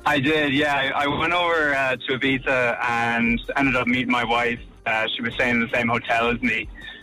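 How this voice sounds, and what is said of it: Irish-sounding accent. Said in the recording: “you don't sound American at all ... You sound Irish.”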